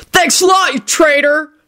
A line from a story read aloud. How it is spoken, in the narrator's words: shouted Henry